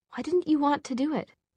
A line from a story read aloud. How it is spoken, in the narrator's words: Tessa asked a little hesitantly